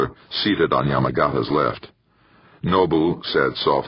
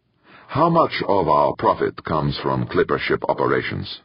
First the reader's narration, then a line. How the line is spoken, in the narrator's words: Nobuhiko asked